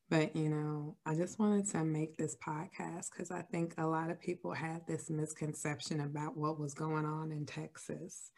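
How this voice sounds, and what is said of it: Sick, slightly strained voice. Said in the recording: “my voice sounds a little weird because I'm still sick”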